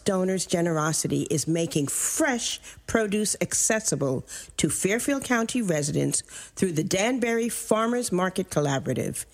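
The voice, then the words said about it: Polished radio announcer voice. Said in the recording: “she has maybe the best radio voice I've ever heard”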